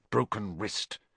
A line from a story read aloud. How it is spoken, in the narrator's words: her mutter